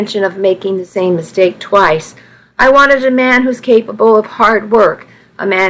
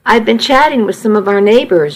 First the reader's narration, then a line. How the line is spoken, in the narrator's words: she said